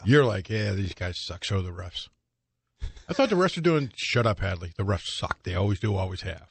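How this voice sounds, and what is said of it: Dead-on impression of co-host. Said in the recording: “That was pretty much a good impression of me from Saturday. That was kind of dead on.”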